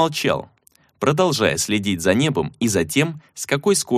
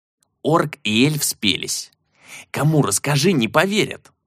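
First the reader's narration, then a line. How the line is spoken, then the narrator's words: Grumbling. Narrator (Russian): проворчал Тул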